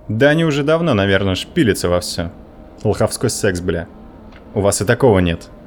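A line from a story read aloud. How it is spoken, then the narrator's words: Sudden impulsive bark. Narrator (Russian): Внезапно для самого себя рявкнул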